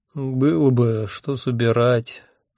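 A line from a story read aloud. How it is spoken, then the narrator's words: Sleepy objection. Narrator (Russian): сонно возразил я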